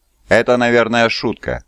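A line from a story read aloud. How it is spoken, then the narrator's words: Grumbling. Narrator (Russian): проворчал Малнор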